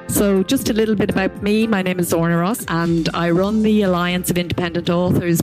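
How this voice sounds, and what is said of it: Irish accent. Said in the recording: “She's also Irish, so you can enjoy her gorgeous accent.”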